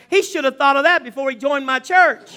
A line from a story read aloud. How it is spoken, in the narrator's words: Johnny yelled back